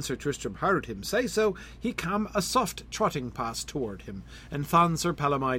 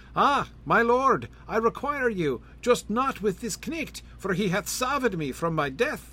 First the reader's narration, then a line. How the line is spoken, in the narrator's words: Sir Palamydes cried on loud to Sir Tristram and sighed